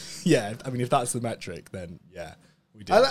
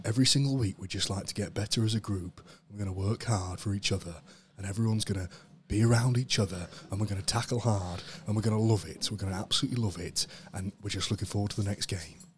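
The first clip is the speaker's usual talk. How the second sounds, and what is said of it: Good Steve Borthwick impression. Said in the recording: “That was a really good impression. ... That's my Steve Borthwick impression.”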